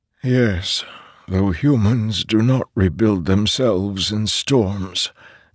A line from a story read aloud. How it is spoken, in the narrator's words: Nin said, his voice growing even softer